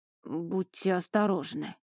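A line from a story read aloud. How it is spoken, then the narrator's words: Forced out awkwardly. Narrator (Russian): выдавил он так неловко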